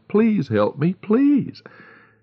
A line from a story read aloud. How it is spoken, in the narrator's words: The wounded man raised himself on his elbow and called out